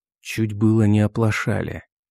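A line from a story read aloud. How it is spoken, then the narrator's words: Whispered. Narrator (Russian): шепотом сказал я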